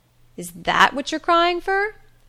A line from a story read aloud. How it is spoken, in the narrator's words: she exclaimed